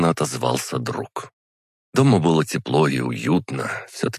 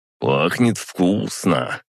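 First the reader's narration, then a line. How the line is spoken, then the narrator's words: Drawled. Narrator (Russian): протянул Гриша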